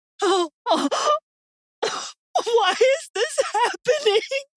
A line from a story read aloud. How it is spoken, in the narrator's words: Michelle said, crying